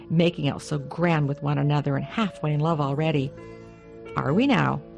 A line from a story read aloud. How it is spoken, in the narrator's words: the cook snorted